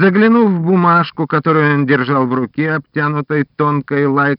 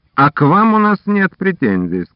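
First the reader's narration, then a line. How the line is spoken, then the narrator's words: Plain. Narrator (Russian): сказал офицер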